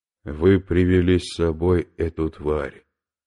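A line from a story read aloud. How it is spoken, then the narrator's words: Quiet, accusing. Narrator (Russian): тихо и обвиняюще сказал Федор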